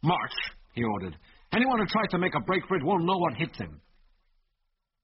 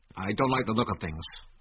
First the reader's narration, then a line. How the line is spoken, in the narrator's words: muttered Delaney